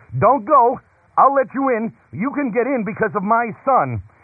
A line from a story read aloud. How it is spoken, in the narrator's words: with gentle love, he called out